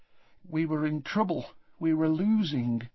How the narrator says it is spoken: said Tonks in a low voice

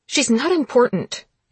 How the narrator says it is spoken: she snapped

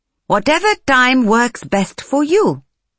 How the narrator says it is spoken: Kulwinda chirped in the crispest English she could manage

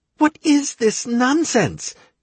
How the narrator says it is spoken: Chirona exclaimed

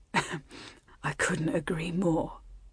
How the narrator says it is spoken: he whispered in her ear

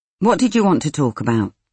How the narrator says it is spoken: She asked crossly

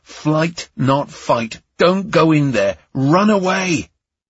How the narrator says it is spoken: My lizard brain was screaming at me

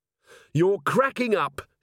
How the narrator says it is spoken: she shouted

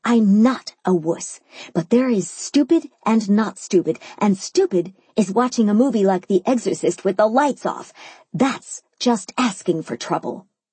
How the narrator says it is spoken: I hissed back

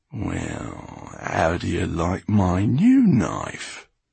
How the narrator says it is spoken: Basta purred into Farid's ear

